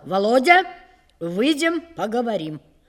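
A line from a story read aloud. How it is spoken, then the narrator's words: Loud. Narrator (Russian): он громко сказал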